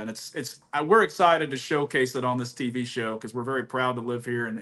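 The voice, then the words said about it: Texas accent. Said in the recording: “So where is this accent coming from? Is that just Texas. A blend? Texas.”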